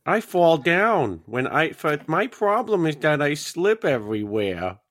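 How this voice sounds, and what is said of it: Lisping accent like Peter Griffin. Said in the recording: “you did an accent and a lisp kind of. So you kind of sound like Peter Griffin from Family Guy”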